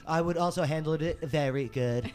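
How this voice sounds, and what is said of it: Donald Trump impression. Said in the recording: “I would just do a Trump impression.”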